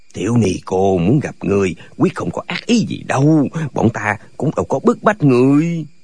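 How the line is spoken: Soft soothing voices. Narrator (Vietnamese): Đào Cốc Lục Tiên cùng hạ giọng an ủi

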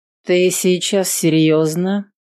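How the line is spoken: Cold question. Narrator (Russian): холодно спросил

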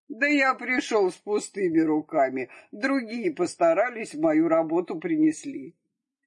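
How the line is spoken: Laughing reply. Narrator (Russian): А тот рассмеялся и отвечает

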